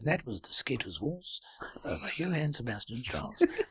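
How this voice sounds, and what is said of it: Posh old-fashioned BBC presenter voice. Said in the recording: “being posh ... I'm doing my BBC presenter voice from 1950.”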